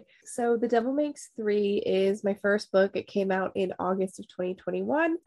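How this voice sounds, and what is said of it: Congested, nasal voice. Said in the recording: “it is allergy season. So sorry if I'm really like sinal.”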